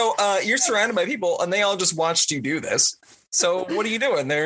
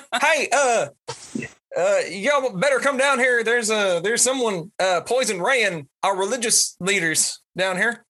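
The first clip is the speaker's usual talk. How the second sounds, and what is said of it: Put-on Texas accent. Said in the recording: “Somebody give me an accent. ... Texas. ... Texas.”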